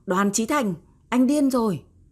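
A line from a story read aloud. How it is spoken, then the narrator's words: Screamed. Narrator (Vietnamese): Hứa Như Thục hét lên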